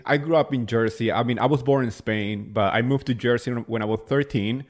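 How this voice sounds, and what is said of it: Spanish Latino accented English. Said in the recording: “your accent, is so sexy ... you're Spanish ... Latino”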